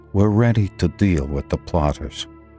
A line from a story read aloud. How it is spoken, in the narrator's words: Wilder Pembroke said calmly